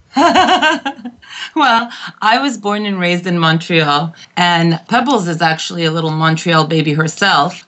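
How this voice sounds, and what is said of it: Non-Connecticut accent, from Montreal. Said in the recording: “you do have an accent, which is not from Connecticut”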